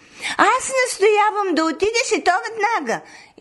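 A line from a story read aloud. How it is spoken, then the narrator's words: Mother shouting. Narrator (Bulgarian): извикала майка й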